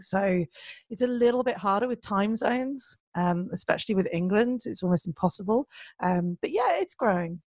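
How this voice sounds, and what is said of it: Accent that sounds British or Australian. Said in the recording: “they're not sure if I'm British or Australian ... some people like my accent, but other people, I think it's like fingers down a blackboard”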